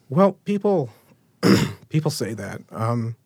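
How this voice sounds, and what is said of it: Emotional, wavering voice. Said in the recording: “Sorry, I'm getting emotional.”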